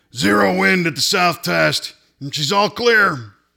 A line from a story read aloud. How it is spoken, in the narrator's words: Auto Club, called out